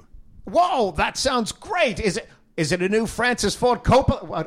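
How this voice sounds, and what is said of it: Unclear attempted Michael Caine impression. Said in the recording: “You be Michael Caine. ... I don't know what accent I'm doing there.”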